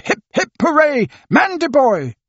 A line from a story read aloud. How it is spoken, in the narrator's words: There were shouts of